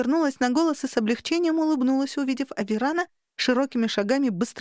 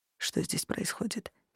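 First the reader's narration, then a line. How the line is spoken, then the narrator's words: Quiet question. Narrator (Russian): спросил тихо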